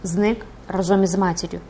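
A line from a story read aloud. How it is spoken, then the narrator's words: Plain. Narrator (Ukrainian): відповіла Маєта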